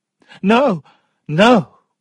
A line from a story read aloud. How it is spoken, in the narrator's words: cried Sophia